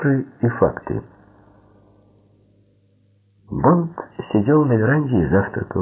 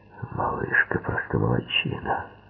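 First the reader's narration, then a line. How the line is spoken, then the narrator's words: Muttering. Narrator (Russian): пробормотал Куэрелл в ответ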